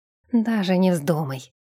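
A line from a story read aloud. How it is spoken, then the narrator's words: Hissed in ear. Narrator (Russian): прошипел он ей на ухо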